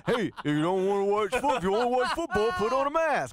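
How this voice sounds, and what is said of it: Coach O (Ed Orgeron) impression. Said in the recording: “I'm not trying to do a Coach O impersonation”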